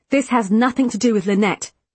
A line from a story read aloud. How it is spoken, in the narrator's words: Callum snapped